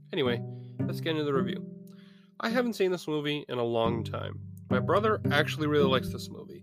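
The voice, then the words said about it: Hoarse, sick-sounding voice. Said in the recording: “I'm still sick, so if I sound a little hoarse, that's why.”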